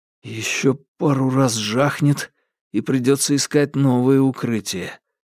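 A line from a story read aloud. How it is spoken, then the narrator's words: Muffled remark. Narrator (Russian): глухим голосом заметил он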